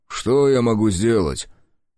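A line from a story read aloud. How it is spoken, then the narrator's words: Offended sniffing grumble. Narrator (Russian): Елена Павловна обиженно засопела и проворчала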